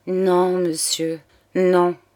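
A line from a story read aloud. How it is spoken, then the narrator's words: Stammering. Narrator (French): balbutia Claire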